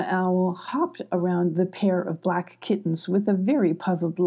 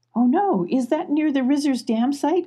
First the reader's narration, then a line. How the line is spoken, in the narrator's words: cried Mrs